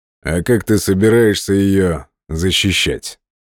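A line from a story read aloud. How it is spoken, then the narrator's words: Calm reply. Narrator (Russian): спокойно ответил Теушпа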